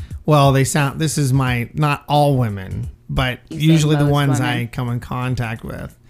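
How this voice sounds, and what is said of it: Usual voice. Nothing is said of it.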